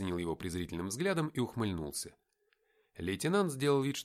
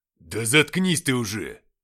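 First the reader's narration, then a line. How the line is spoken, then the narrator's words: Barking snap. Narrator (Russian): Рявкнул лейтенант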